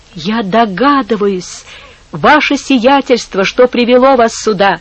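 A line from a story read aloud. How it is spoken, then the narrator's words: Exclaiming. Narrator (Russian): воскликнул он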